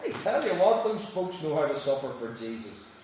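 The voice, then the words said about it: Sarcastic delivery. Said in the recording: “Please forgive me for being sarcastic.”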